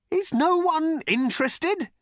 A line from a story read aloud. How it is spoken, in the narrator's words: he shouted out